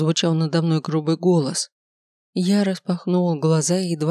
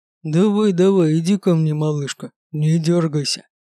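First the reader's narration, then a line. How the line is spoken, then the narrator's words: Menacing growl. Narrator (Russian): прорычал кошмарный тип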